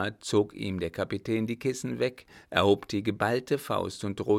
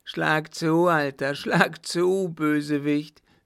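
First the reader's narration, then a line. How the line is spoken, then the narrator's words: Shouted. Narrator (German): rief der Baron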